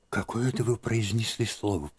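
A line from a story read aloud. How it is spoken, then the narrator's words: Whisper. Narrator (Russian): прошептала она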